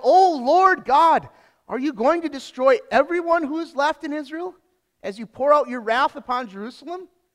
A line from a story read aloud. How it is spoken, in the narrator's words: I fell face down and cried out